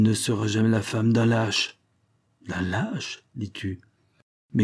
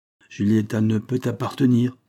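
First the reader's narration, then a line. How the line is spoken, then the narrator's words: Old man's curt retort. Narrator (French): répliqua le vieillard d'une voix brève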